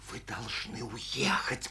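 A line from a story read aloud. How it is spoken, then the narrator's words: Whisper. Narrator (Russian): продолжала Анна Сергеевна шепотом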